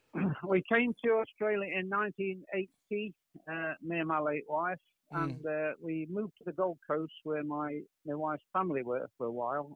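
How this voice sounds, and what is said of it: English accent. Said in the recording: “obviously your accent, you're English”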